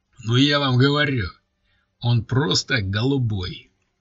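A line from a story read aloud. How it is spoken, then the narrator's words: Booming voice. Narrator (Russian): зычным голосом подытожил Амбал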